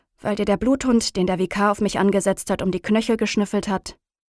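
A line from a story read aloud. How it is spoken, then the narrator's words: Dry question. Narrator (German): frage ich trocken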